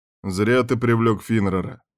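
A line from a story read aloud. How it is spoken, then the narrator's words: Man grumbling. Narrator (Russian): ворчал тот самый второй представительный мужчина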